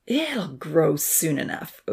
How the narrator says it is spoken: Odin growled

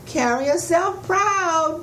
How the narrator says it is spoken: Miss Grinnell called out the window

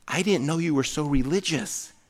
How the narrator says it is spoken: the girl leaned over and she whispered

